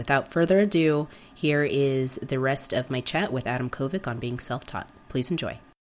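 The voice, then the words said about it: Sick, strained voice. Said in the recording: “Forgive my voice, I'm a little sick right now”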